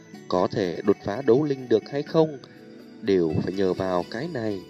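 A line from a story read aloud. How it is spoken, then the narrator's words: Soft-spoken. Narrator (Vietnamese): Tiêu Viêm nhẹ giọng nói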